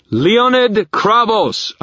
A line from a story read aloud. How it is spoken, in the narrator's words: I thundered